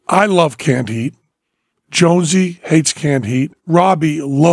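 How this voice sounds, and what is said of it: Usual voice. Nothing is said of it.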